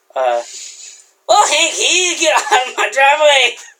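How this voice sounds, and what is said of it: Impression of the neighbor character. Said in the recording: “I could do a pretty good one of those ... I was doing an impression ... That was spot on”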